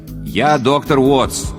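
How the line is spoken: Loud repetition. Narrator (Russian): громко повторил я

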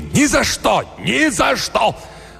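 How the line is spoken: Shouted with all strength. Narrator (Russian): Сэм крикнул, собрав все силы

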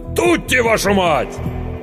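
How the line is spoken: Commanding shout. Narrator (Russian): кто-то невидимый за спиной повелительно крикнул

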